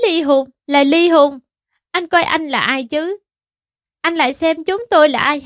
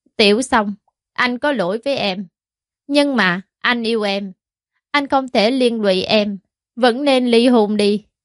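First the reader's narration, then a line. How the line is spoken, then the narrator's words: Low hoarse voice. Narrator (Vietnamese): Hàn Khiếu Quốc dùng thanh âm trầm thấp khàn khàn nói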